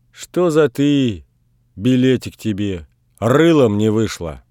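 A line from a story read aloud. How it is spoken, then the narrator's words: Angry grumble. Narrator (Russian): Ночь проворчала что-то сердитое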